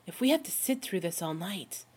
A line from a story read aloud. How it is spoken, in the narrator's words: he whispers